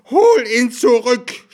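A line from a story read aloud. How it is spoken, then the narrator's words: Old woman's scream. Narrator (German): schrie die alte Frau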